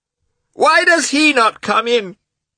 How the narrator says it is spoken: She cried, calling to Vronsky on the other side of the door

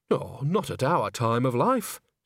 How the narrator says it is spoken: said Nanny, sadly

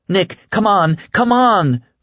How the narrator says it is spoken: Fran cried

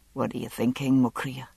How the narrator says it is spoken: he asked softly

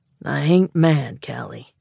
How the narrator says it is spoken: he said, his voice husky and low

